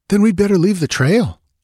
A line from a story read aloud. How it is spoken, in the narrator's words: exclaimed Balthus